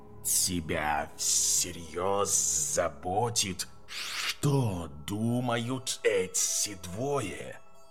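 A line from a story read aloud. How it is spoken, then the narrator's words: Snake's hiss. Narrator (Russian): раздалось шипение змеи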